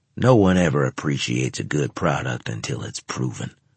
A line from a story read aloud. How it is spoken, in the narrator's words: he grumbled